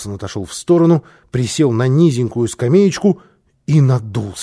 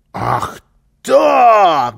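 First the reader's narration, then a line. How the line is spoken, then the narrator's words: Shouting. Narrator (Russian): закричал Карлсон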